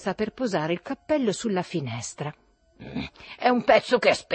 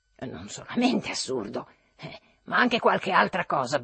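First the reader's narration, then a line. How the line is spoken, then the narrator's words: Grumbling. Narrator (Italian): brontolò Trudoliubo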